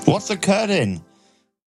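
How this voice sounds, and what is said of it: Deliberately bad put-on Welsh accent. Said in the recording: “That's a really bad Welsh accent.”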